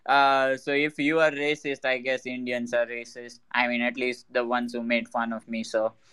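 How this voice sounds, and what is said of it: Speaks with a distinctive accent. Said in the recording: “made a joke out of my accent ... I've grown up all my life getting fun made of my accent”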